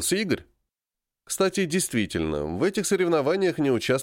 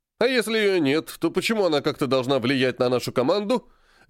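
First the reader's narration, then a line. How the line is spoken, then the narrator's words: Barked. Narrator (Russian): рявкнул физрук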